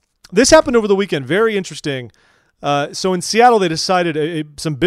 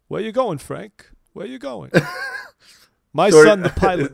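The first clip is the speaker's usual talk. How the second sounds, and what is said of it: Christopher Walken impression. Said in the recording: “Is that a Christopher Walken accent?... I have to kind of get in the mood to do Christopher Walken. I can do a decent one... No, that's terrible... That's your Christopher Walken channel.”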